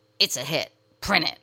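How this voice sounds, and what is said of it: Impression of Jerry Wexler. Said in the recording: “That's our Jerry Wexler impersonation.”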